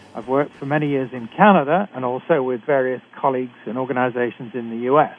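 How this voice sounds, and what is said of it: British accent. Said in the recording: “I'm a physician trained in Britain, as you can tell from my accent.”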